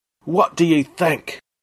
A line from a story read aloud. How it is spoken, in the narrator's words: roared Dakuwaka at his army